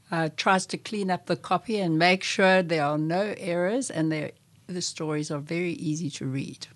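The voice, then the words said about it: South African accent. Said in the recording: “Am I hearing a South African accent? ... Yes.”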